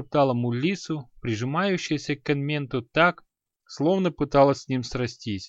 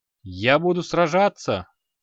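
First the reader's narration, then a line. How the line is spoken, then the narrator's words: Exclaiming. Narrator (Russian): воскликнул Энмент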